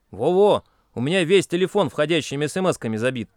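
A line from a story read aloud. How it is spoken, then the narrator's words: Grumbling. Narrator (Russian): проворчал Шурик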